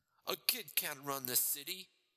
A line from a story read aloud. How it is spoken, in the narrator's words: he said, still laughing